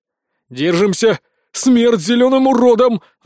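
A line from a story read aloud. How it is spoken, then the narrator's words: Roar. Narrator (Russian): взревела Варра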